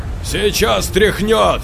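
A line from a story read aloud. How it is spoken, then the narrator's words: Shout. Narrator (Russian): крикнул Юра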